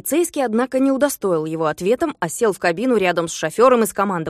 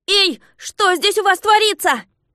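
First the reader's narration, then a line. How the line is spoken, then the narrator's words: Shouted. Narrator (Russian): закричал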